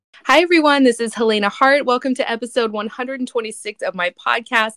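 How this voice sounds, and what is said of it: Sick, bad-sounding voice. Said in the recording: “I'm actually very sick today. I know my voice sounds terrible”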